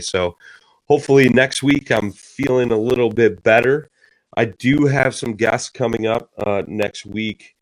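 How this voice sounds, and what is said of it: Voice strained from a cold. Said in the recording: “My voice isn't what it normally is. I'm struggling here. I've been battling a cold”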